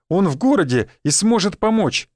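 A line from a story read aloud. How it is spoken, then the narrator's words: Joyful announcement. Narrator (Russian): радостно уведомил нас Олег Иванович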